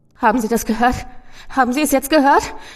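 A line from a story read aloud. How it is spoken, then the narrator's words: Panting, wailing. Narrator (German): keuchte der Mann und es klang wie ein Wehklagen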